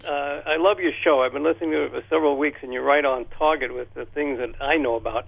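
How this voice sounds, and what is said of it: New York accent. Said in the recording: “if you're expecting a Texas accent, I have to tell you, I spent the first half of my life in New York, so that stayed with me”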